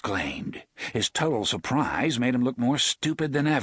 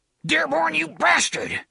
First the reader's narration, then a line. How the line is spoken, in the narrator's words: Hash Renfrew spat